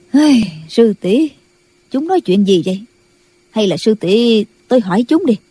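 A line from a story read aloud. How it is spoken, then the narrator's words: Sighing. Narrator (Vietnamese): Bà thở dài nói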